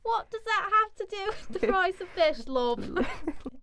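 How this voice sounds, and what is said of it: Put-on British Cockney accent. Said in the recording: “my British accent is superb ... We go zero to Cockney real quick every time.”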